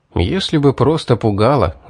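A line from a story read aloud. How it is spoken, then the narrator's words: Sigh. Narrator (Russian): вздохнул я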